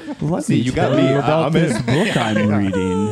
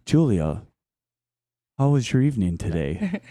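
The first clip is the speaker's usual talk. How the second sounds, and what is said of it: Flat monotone voice. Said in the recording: “In this very monotone voice.”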